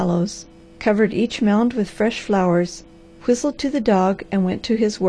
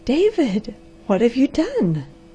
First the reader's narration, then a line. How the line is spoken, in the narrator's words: gasped the amazed girl